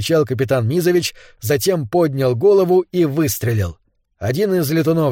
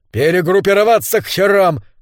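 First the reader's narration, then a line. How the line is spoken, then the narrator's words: Shouted. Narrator (Russian): кричал он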